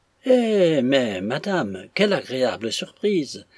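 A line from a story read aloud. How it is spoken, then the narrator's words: Exclaimed. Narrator (French): s'écria Punks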